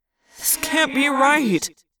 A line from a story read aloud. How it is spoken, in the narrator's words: I moaned